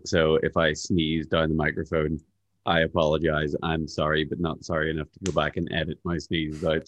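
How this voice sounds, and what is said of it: Slightly congested voice from cold. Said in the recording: “I have a bit of a cold”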